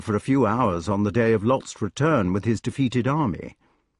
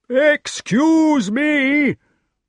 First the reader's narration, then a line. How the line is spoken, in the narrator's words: shouted from the top of the wall